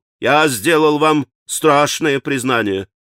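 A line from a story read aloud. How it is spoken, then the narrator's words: Gloomy conclusion. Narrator (Russian): мрачно заключил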